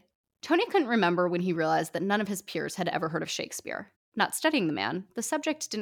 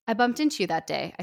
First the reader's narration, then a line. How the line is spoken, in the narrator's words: I said eventually